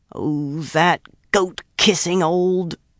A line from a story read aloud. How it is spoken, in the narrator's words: she growled, the rest lost